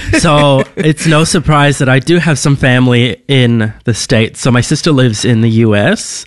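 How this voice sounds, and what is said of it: Australian with American-sounding accent. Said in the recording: “I'm probably the most American-sounding Australian person you'll ever meet.”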